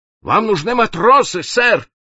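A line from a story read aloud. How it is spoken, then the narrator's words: Fearful shout. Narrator (Russian): боязливо крикнул он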